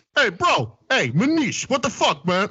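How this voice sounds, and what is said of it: Impression of Benigno's New York accent. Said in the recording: “You should be able to do a good beningo ... every fucking accent from New York to Staten every Island ... the fucking accent the beningo has ... It's actually pretty good.”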